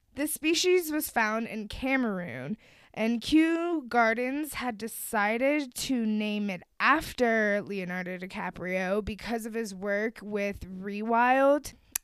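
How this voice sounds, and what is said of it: American accent. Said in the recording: “my American accent”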